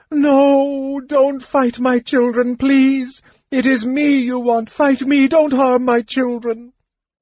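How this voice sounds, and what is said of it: Heartbroken, shrieking voice. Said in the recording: “shrieked Matafleur in a heartbroken voice.”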